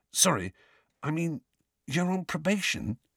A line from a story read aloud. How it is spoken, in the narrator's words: he whispered